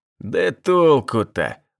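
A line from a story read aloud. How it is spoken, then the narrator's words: Upset drawl. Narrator (Russian): расстроенно протянул Шухов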